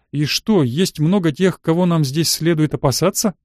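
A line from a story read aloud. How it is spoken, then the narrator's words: Ominous theatrical laugh. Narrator (Russian): Девушка зловеще напоказ рассмеялась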